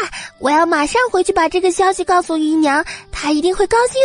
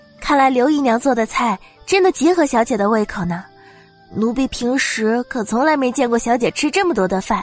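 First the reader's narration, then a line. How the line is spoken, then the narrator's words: Admiring exclamation. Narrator (Chinese): 也不得不感叹道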